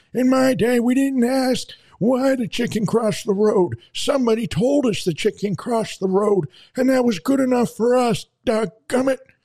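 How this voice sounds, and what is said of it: Old grandpa character voice. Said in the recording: “we got to do this in a grandpa voice.”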